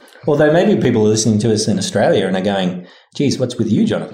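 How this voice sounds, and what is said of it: Thick Australian accent. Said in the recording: “does have a thick Aussie accent.”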